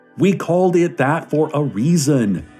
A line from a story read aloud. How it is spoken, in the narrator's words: is shouting